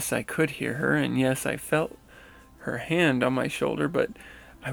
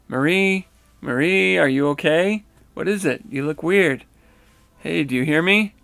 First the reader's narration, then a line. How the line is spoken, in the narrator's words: My girlfriend, who was seated next to me, called out